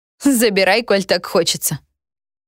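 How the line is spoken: Laughing. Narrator (Russian): хохотнула я

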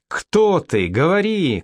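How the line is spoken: Woman shouting. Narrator (Russian): кричала женщина

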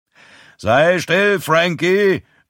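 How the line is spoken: Grandfather roaring. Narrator (German): brüllt Großpapa

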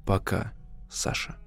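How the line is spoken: Calm, unkind ironic smile. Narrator (Russian): Он улыбнулся своей недоброй иронической улыбкой и спокойно произнес

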